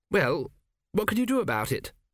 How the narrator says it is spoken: said Arthur

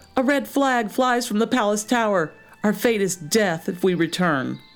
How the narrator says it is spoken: called out

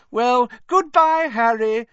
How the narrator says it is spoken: Rita Skeeter called merrily

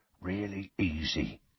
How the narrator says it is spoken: he said softly

